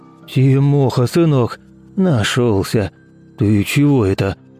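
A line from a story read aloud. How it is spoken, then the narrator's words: Soft, quiet, soothing. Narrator (Russian): Он говорил мягко и тихо, будто с умалишенным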